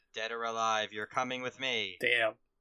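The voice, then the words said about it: Weak RoboCop impression. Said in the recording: “I can't do a good RoboCop impression.”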